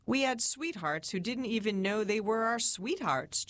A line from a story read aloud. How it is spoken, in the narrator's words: Judy said